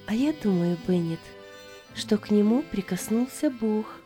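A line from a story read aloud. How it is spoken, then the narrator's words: Calm. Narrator (Russian): сказала Аня, спокойно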